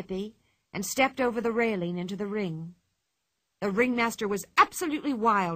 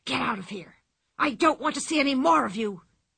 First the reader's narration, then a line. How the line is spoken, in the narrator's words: he hissed